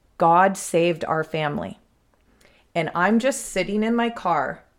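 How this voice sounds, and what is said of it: Emotional, near-tearful voice. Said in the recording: “now I'm getting emotional ... That's why I'm emotional ... this is going to make me cry”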